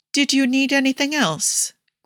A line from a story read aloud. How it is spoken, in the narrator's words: Guido asked kindly